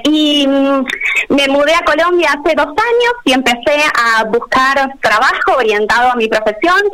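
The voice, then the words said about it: Argentine Spanish accent. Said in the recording (Spanish): “como verán por mi acento, yo soy argentina”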